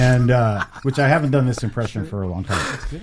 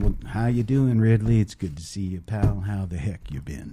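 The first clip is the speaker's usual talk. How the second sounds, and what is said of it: Imitates another person's voice. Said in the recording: “I do a good Jack Nicholson impression.”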